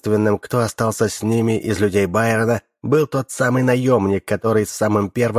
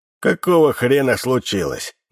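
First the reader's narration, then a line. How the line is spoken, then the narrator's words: Frighteningly hoarse thin voice. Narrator (Russian): Даже обычно тонкий голос Фрея звучал пугающе хрипло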